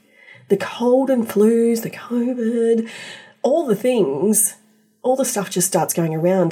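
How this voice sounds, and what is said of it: Voice sounds ill. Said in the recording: “you can probably hear in my voice, I've also had this little illness lately”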